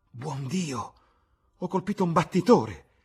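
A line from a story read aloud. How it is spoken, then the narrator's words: Exclaiming. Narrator (Italian): esclamò Sir Geoffrey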